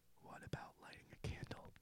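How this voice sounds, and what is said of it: Whispering. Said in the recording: “Try whispering.”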